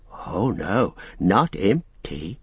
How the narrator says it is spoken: whispered Gollum

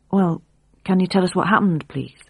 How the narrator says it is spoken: she asked quietly

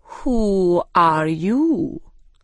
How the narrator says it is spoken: said slowly

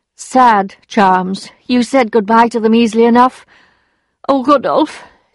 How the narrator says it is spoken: she sighed

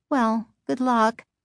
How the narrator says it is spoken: she said dryly

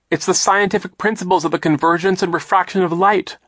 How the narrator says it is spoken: Violet cried, wiping her eyes

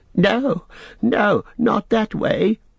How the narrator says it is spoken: wailed Smeagol

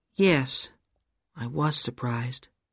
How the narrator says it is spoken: Sandy said quietly

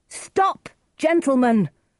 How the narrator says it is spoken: Romeo cried

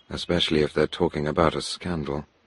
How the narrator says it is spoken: I said softly

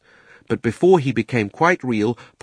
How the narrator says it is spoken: Polly shouted

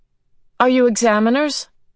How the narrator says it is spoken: the boy asked a little anxiously

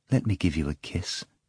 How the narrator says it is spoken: the girl said tenderly

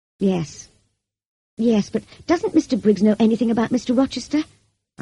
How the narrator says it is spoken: I asked desperately

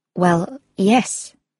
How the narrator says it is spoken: Katie replied nervously

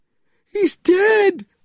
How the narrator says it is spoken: screamed

